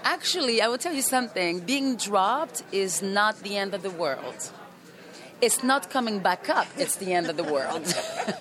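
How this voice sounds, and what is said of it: Foreign accent, hard to place. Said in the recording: “I don't quite recognize the accent.”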